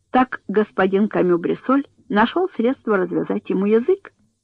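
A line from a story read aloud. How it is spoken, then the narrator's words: Laughing question. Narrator (Russian): спросил, смеясь, начальник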